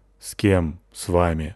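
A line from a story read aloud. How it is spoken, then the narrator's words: Glum question. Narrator (Russian): уныло спрашиваю я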